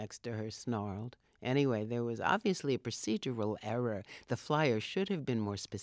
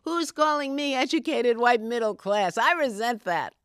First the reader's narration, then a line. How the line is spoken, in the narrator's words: yelled from the back